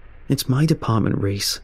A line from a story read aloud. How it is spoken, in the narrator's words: Brian replies with a sigh